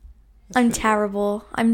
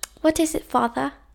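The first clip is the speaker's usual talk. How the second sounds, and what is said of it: Poor attempt at British accent. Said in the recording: “I liked your British-ish accent ... can you try and be British? ... I'm terrible at a British accent. ... Yeah, you are.”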